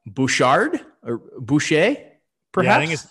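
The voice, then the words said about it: Attempted French accent. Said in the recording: “I'm going to try this in a French accent.”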